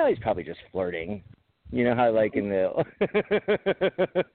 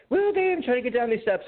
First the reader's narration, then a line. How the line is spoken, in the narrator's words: I just screamed at her